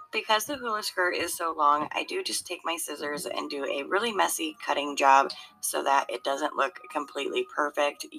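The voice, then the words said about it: Hoarse voice cracking in and out. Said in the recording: “my voice keeps going in and out a little bit. I am still getting over a cold”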